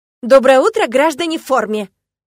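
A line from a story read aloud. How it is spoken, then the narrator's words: Loud announcement. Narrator (Russian): громко объявила я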